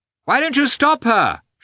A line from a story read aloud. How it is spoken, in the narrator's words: shouted Oblonsky